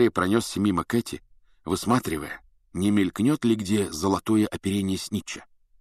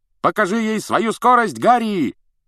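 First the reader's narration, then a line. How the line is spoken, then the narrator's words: Shouted. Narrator (Russian): крикнул Фред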